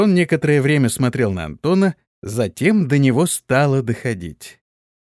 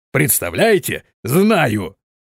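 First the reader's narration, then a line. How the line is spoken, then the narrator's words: Laughing male speech. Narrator (Russian): сквозь смех, произнес он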